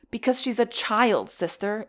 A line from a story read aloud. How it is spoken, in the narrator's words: exclaimed Flame